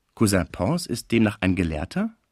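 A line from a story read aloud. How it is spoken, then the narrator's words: Plain question. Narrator (German): fragte Cécile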